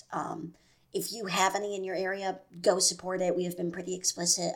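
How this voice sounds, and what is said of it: Hoarse, strained voice. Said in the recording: “my voice is fucked up. Um, that is from yelling”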